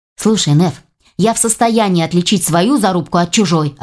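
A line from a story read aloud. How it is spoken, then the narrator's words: Snapping irritably. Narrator (Russian): огрызнулся Ваня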